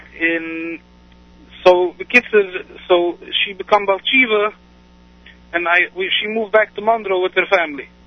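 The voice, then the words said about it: Non-native accent, somewhat like Yiddish. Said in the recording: “you have an interesting accent. It doesn't sound just like it's Yiddish. It sounds a little bit different.”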